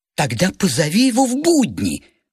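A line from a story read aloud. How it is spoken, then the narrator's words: Sudden sharp exclamation. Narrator (Russian): вдруг резко воскликнула Тамара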